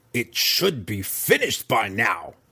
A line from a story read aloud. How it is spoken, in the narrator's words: she grumbled